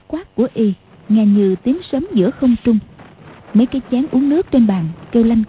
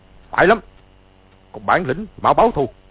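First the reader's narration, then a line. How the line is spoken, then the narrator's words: Shout. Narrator (Vietnamese): Từ Ân quát lên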